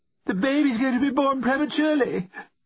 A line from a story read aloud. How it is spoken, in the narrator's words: she screamed down the phone